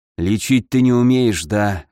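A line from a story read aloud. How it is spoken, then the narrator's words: Sigh. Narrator (Russian): вздохнул Ламар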